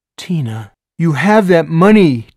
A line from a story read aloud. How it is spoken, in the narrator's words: Tina cried